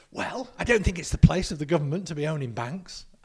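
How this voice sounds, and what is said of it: Convincing David Cameron impression. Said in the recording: “I thought, call me Dave, Cameron was actually in the room on this podcast. So good was your impression.”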